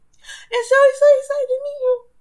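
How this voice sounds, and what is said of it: Teary, emotional voice. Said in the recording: “Oh, I feel like I'm going to cry... getting emotional”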